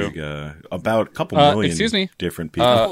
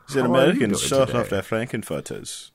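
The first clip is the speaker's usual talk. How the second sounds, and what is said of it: Put-on German accent. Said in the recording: “That's literally the only thing I could do with the German accent.”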